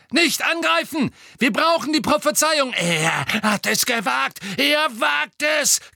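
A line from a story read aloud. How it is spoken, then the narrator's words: Incoherent shriek. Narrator (German): kreischte Bellatrix zusammenhanglos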